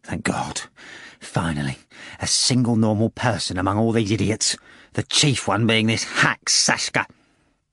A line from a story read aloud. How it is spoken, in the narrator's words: Ivan Nikolaevich muttered